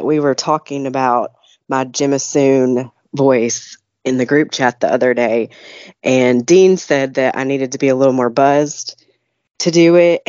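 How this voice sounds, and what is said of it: Congested voice from a cold. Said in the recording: “Now I have a cold.”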